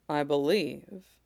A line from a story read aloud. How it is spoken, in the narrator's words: he says quietly